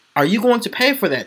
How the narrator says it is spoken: She snapped

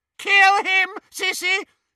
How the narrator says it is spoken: shrieked Bellatrix

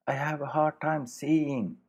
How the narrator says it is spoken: Charles shouted

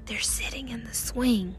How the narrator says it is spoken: Theo whispered

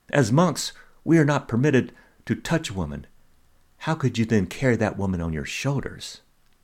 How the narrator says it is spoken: the younger monk could not contain himself any longer, and he blurted out

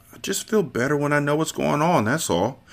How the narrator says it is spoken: the Turk mumbled

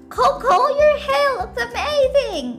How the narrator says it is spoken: she cried

